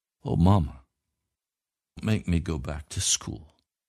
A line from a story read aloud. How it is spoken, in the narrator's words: She told how the children had treated her and pleaded